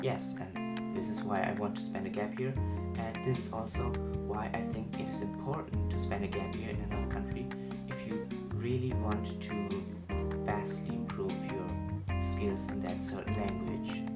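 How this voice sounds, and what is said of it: German accent in English. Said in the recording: “I want my German accent to kind of go away”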